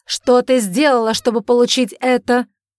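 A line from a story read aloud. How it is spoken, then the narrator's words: Shouting. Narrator (Russian): закричал он на нее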